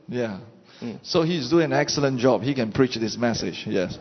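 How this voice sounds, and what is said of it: Southeast Asian English accent. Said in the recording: “My accent is not easy to translate ... Southeast Asian is rare here”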